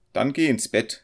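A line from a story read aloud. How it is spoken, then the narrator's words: Calling out. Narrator (German): rief der Student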